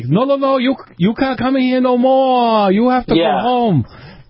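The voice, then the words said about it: Very bad Japanese accent impression. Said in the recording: “a very, very bad Japanese accent”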